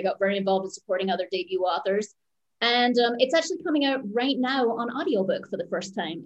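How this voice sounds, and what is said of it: Speaks with a noticeable accent. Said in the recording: “I have such a distracting voice ... you do have an accent”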